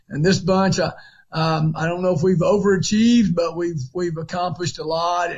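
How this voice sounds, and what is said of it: Raspy voice. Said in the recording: “raspy voice ... the unmistakable voice of Ron Crawford. And he sounds like that in August ... He just always sounds like that.”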